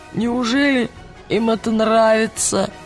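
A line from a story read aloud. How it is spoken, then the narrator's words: Hoarse wheeze after vomiting. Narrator (Russian): просипел Роджер после того, как его обильно вырвало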